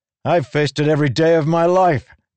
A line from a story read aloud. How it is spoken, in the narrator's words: Kaladin shouted